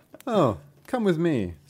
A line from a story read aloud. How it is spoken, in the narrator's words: said the man